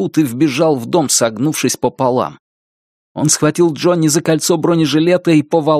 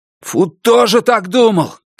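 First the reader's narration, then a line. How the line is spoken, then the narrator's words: Shout. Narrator (Russian): крикнул Хой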